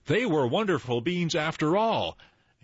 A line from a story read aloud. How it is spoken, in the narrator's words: Jack cried out